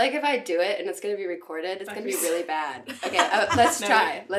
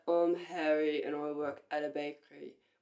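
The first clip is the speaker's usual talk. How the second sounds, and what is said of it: Put-on French accent. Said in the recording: “that was like French accent”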